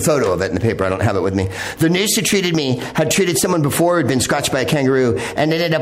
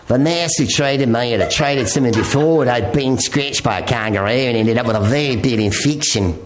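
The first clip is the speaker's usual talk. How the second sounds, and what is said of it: Put-on Australian accent. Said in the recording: “I'm going to read it with an Australian accent ... I mixed New Zealand in there.”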